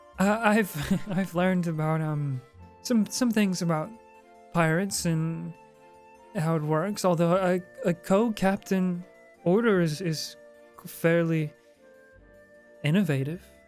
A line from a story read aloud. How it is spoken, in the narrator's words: She laughs nervously at this whole like barrage of storytelling from you two, and she says